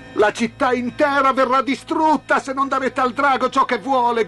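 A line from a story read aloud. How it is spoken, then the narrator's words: Crowd shouting. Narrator (Italian): gridava la gente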